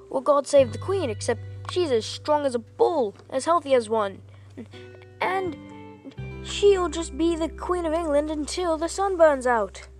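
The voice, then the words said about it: Poor put-on British accent. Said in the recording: “a random improvised thing in a British accent ... Sorry if my British accent sucks ... That was my worst British accent yet.”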